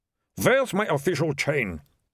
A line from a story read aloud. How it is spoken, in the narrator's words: said the mayor, staring around wildly